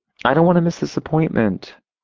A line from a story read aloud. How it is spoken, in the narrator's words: Sophia whined